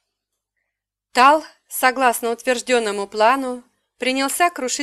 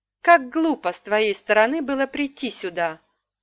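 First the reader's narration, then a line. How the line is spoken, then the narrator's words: Gentle. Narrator (Russian): ласково сказал Радан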